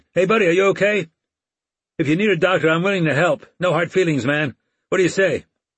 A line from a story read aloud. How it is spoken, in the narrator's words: from the railing, hollered